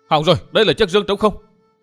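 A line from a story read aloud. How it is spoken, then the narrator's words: Sudden cry. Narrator (Vietnamese): bỗng có kẻ kêu lên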